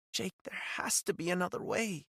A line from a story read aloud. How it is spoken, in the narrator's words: she said, her voice barely a whisper